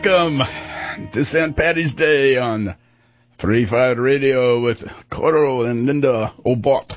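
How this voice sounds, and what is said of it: Attempted Irish accent. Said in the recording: “the only attempted Irish accent”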